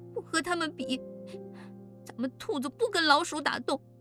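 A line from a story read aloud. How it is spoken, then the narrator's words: Crying. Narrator (Chinese): 奶坑哭着说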